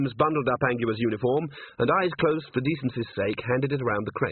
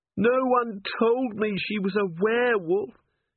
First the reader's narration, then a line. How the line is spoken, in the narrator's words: Cherie moaned